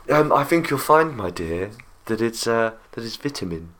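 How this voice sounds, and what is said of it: Put-on posh English accent. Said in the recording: “As long as you say it in a very posh accent.”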